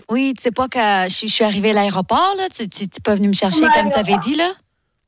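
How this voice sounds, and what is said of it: Put-on Québécois French accent. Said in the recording (French): “l'accent québécois ... elle gère l'accent québécois de ouf ... C'est parti avec l'accent du Québec”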